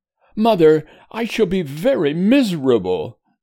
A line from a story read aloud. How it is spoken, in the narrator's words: said Edward, sobbing